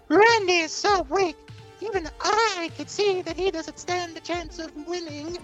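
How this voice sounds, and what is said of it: Character voice. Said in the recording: “do your do voice for Blind Vampira”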